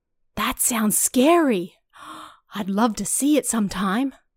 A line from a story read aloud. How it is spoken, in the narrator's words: the boy said excitedly